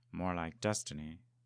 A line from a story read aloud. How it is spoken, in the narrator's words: Lovecraft muttered